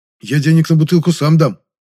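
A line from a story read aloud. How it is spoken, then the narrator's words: Hurried, guilty. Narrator (Russian): торопливо заявил виноватый Жасминов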